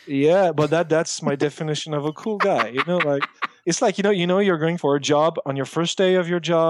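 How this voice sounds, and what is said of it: Usual voice. Nothing is said of it.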